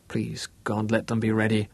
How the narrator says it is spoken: muttered

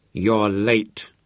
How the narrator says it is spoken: growled Harry

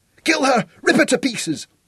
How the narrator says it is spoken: screamed the girl

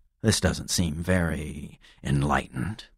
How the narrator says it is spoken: I muttered

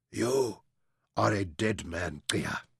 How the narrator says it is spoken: Bakut croaked

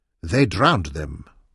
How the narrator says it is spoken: Munyoro answered quietly, in the same language

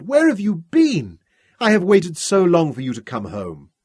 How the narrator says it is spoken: she cried

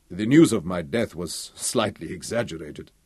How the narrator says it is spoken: Victor Omeru chuckled

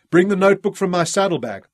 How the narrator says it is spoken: shouted to Jan Cheroot

